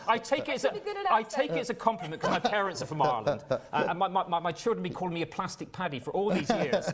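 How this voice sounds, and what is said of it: West Country English accent. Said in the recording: “I was born in the West Country. Many people from the United States think the West Country accent is an Irish accent.”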